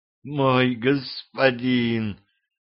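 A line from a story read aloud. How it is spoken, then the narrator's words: Sweet moaning girl. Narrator (Russian): сладостно застонала девушка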